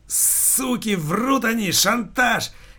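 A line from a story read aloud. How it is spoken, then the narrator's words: Sudden strained shout. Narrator (Russian): Неожиданно для себя самого не своим голосом вдруг закричал Алексей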